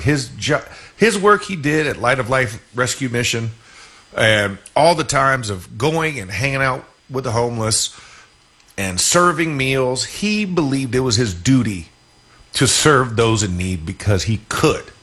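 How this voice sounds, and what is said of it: Emotional, strained voice. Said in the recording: “getting emotional”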